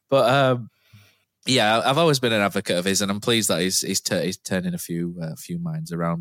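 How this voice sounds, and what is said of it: Slightly rough, hoarse voice. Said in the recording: “I had a coughing fit two minutes ago, and I'm still not quite over it. My voice is a little bit ropey.”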